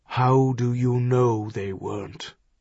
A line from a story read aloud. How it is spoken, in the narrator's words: He asked very, very softly